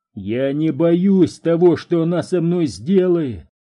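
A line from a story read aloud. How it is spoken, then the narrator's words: Shouting. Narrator (Russian): кричал Перри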